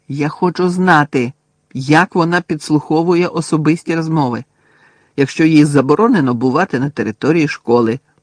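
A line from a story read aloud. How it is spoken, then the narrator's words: Angry. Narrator (Ukrainian): сердито сказала Герміона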